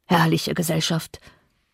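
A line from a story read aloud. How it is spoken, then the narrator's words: Murmur. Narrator (German): murmelte Heathcliff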